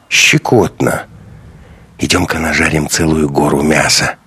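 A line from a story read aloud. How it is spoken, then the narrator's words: Whisper. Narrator (Russian): прошептал Андрей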